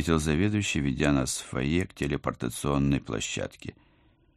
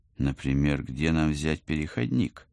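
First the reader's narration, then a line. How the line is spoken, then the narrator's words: Plain. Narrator (Russian): спросила я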